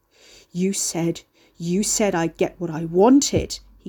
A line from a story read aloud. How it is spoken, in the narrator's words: he growled, panting